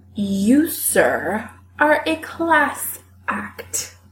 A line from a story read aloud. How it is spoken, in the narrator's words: Josh slurs